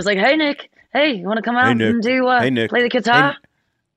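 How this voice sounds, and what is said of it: Australian-accented impression of a man. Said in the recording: “Try to do an impression of my dad ... Kirsten always did one, and it was like Australian”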